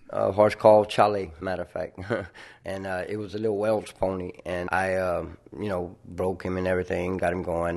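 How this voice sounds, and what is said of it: Louisiana Cajun accent. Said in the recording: “talks with me about Louisiana and the Cajun countryside. You'll hear that in his accent.”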